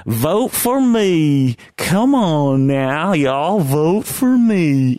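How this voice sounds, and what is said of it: Caricatured Southern accent, Cletus impression. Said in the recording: “Southern accent like Cletus of The Simpsons ... caricature ... that's a funny accent”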